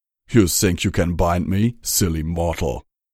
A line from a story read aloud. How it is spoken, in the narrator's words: Riddentum asked with a chuckle